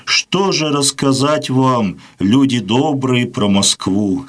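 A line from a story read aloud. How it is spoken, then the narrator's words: Heavy sigh. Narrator (Russian): сказал Григорий Потапович, тяжело вздохнув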